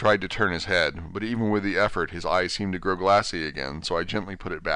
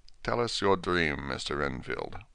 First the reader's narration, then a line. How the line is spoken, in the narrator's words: Van Helsing said in a quiet, grave voice